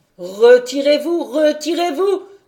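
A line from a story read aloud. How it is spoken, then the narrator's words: Vibrant shouting voice. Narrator (French): criait-il d'une voix vibrante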